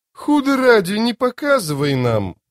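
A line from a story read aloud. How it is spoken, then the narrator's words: Exclamation. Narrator (Russian): воскликнул Мурилью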